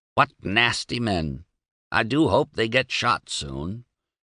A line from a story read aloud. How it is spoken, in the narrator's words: to croak